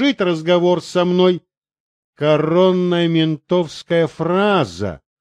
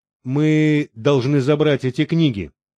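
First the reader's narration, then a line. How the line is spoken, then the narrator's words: Plain. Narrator (Russian): сказал Юра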